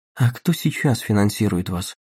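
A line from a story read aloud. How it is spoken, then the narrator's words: Quiet question. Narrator (Russian): негромко спросила Дагни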